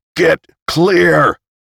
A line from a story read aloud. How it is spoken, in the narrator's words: He shouted